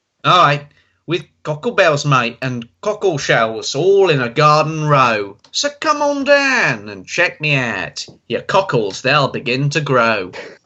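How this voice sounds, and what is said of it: Put-on Australian accent. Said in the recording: “change to Australian now.”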